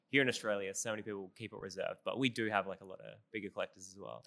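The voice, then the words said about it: Australian accent. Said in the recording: “They don't understand my accent ... my Australian accent”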